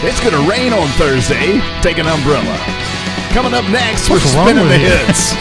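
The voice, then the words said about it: Radio DJ voice. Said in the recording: “I got my DJ voice.”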